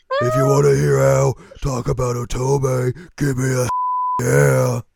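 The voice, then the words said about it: Imitates another person's voice. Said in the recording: “All Stone Cold's here ... I can't do that voice. I haven't done that voice in a while. My throat hurts.”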